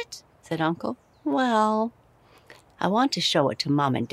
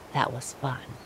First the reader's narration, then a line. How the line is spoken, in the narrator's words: whispered